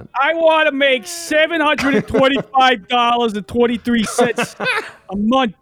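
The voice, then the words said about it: Imitates another person's voice. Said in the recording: “You used to have a really good Danny accent.”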